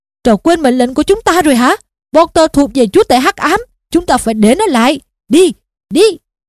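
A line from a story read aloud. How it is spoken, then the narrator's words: Shouting. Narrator (Vietnamese): Snape đang quát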